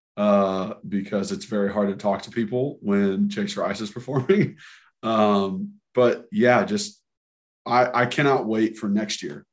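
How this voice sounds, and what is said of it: Slightly hoarse voice. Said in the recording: “I'm still a little hoarse from it, if you can hear that in my voice,”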